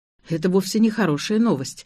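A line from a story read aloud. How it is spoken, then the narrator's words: Sighing. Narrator (Russian): вздохнул я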